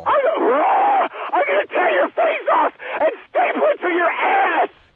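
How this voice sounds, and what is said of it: Screaming like an animal. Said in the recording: “You sound like an animal.”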